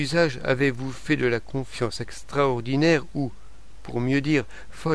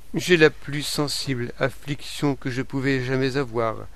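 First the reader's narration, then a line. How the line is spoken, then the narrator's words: Plain. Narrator (French): répondit-elle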